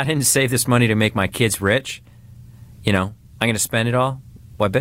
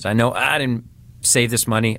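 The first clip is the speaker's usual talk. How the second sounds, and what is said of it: Sudden put-on accent. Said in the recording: “I don't know where the accent came from.”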